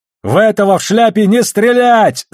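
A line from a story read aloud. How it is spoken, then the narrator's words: Yelling. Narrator (Russian): заорал Холден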